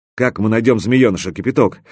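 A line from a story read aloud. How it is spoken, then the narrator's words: Angry question. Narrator (Russian): сердито спросил Мировой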